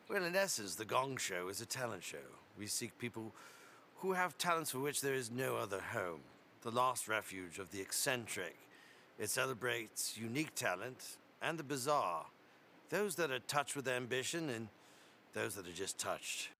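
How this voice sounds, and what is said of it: Put-on British accent. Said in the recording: “Playing a British character who's the host of The Gong Show... Another accent”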